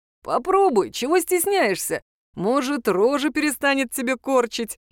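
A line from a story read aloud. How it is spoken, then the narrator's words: Giggling imp. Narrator (Russian): хихикал бес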